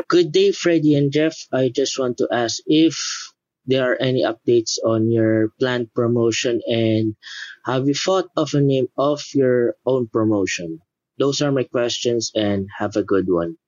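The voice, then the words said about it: Filipino accent, pleasant voice. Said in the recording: “That sounds like a Philippine accent, man. I love your voice. You sound awesome”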